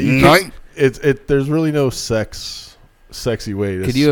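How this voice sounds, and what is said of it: Usual voice. Nothing is said of it.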